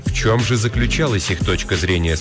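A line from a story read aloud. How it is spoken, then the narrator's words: Plain question. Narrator (Russian): спросил Родерик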